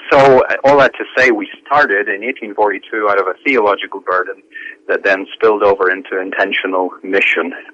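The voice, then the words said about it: Northern Irish accent, partly Americanized. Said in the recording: “my accent is changing... I moved over here from Northern Ireland”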